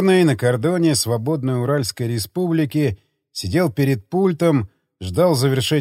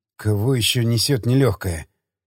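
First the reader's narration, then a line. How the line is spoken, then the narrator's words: Gruff grumble. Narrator (Russian): Буркнул дежурный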